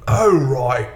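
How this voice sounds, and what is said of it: Brief put-on Cockney accent. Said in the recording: “do a Cockney accent. ... Which would have been...”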